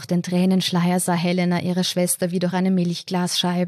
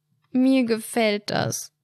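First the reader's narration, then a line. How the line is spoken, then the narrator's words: Whimpered. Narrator (German): wimmerte Helena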